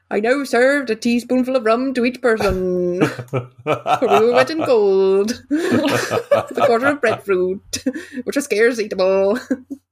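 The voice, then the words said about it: Put-on old sea captain accent. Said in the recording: “What is that accent? ... the bounty approach to the character ... That's the most definable accent I could remember.”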